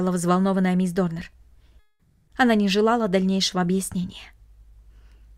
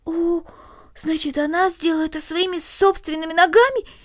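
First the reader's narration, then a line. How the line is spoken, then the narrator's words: Exclaimed. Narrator (Russian): воскликнула Корнелли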